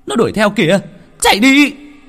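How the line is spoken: Group yelling. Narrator (Vietnamese): Lập tức cả bọn hét toáng

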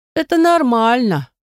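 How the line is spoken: Nasal voice. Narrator (Russian): ответил второй гнусавый голос

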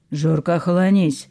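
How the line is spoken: Stern old man rebuke. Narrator (Russian): строго одернул дед

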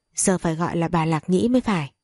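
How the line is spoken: Smiling. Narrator (Vietnamese): An Ly mỉm cười nói

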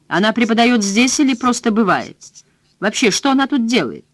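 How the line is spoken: Fairly loud question. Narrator (Russian): довольно громко, чтобы Хелен могла услышать, спросил

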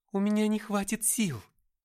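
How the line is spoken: Pleading. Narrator (Russian): взмолилась Габриэль

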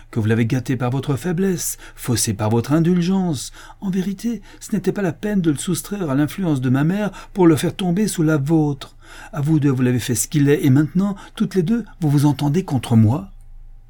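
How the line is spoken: Furious shout. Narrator (French): s'écria Richard avec fureur

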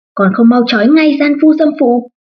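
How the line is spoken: Shouted. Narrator (Vietnamese): hét lên

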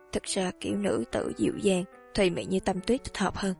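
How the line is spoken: Muttering. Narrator (Vietnamese): lầm bầm nói

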